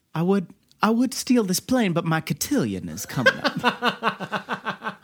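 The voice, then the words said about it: Exaggerated Southern belle accent. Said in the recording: “it borders on Scarlett O'Hara of southernness”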